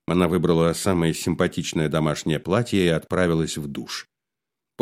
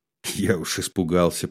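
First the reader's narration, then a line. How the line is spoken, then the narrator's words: Muttered. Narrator (Russian): пробормотал он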